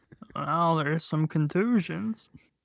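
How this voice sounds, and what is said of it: Imitates another person's voice. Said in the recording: “my impression of Ray Romano”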